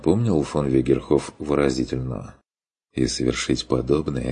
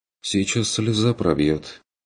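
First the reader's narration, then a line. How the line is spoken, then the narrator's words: Warning. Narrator (Russian): предупредил Курт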